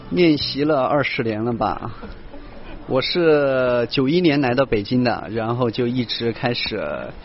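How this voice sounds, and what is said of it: Sichuan-influenced regional accent. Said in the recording (Chinese): “田亮的口音问题似乎依旧没能得到修正 ... 我的队友四川人多 ... 没有改过来”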